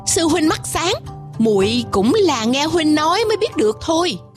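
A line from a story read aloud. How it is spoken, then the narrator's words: Smiling voice. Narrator (Vietnamese): Tôi như mỉm cười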